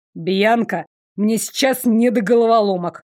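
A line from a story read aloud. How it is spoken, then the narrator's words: Snapping irritably. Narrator (Russian): огрызнулся Дарек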